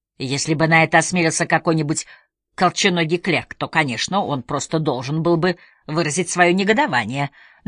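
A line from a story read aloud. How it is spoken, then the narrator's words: Detective's skeptical snort. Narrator (Russian): детектив хмыкнул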